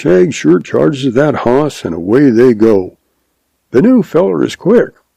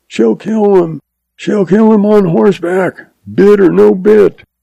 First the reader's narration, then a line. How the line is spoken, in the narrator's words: F yells